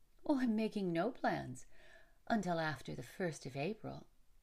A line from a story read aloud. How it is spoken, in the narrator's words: Rachel replied with a laugh